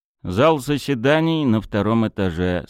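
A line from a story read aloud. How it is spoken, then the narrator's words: Plain. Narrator (Russian): сказал Тарас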